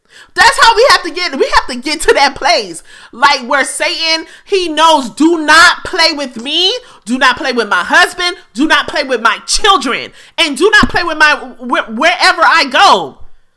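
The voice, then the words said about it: Yelling, loud forceful voice. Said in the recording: “I'm sorry if I'm yelling”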